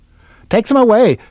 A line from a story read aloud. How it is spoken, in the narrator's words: cried the ducks